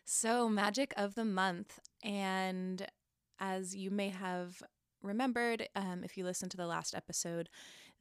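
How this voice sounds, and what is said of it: Smoky, husky voice. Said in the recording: “my voice is a little like smoky for no reason”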